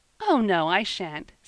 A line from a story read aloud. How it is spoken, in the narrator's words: said Eppie, laughing